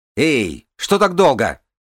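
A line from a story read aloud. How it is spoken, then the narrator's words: Shouted. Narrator (Russian): крикнула Нинавис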